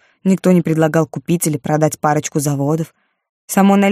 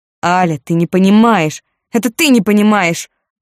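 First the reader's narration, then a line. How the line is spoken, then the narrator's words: Shouting in face. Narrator (Russian): выкрикнула она ему в лицо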